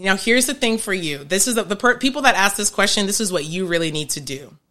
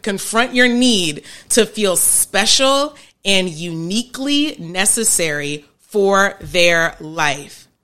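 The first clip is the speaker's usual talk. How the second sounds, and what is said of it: Raised, emphatic voice. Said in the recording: “I'm raising my voice because it's important.”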